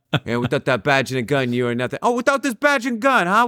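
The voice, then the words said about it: Bad Italian New Yorker accent. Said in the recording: “a really bad Italian New Yorker accent”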